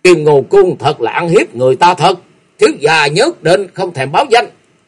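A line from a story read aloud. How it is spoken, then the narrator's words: Loud shouting. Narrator (Vietnamese): hai người quát to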